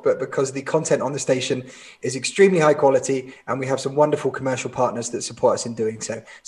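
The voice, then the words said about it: Hoarse, croaky voice. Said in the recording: “I've got a frog in my throat ... because I can't talk”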